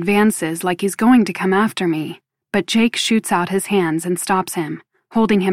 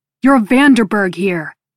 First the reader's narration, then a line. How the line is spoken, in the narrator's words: he shouts